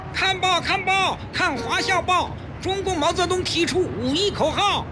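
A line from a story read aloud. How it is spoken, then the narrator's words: Boy hawking over crowd. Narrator (Chinese): 一个报童在熙熙攘攘的人群中奔走叫卖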